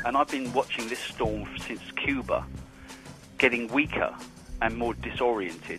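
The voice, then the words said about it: Distinct British accent. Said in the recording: “a distinct British accent”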